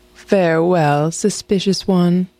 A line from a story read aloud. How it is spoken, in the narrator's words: she said sadly